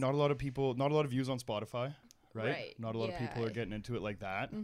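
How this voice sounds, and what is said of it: Usual voice. Nothing is said of it.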